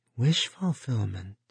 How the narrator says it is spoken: Edie Dorn said faintly

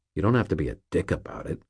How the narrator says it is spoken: I muttered, very quietly

